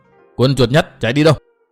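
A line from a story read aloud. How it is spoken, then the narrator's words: Loud shout. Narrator (Vietnamese): quát lớn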